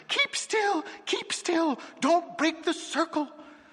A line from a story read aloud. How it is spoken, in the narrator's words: Magnus cried in a high-pitched, squeaky whisper